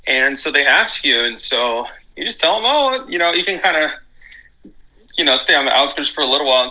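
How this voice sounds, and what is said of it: Slight Texas twang. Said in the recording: “they can hear a little bit of Texas twang”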